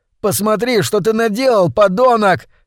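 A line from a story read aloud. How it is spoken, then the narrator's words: Shouting. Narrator (Russian): кричал парень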